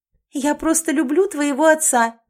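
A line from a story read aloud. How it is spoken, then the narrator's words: Shouted. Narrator (Russian): прокричала Элизабет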